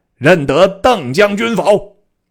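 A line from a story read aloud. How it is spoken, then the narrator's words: Young warrior's stern shout. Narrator (Chinese): 魏阵中一小将……厉声大叫曰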